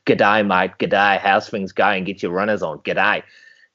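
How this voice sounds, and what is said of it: Mock Australian accent. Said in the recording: “I used to have an Australian teacher as a PE teacher”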